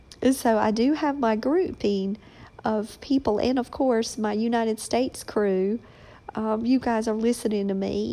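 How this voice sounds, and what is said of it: Southern American accent. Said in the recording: “she doesn't even worry anymore about that Southern accent.”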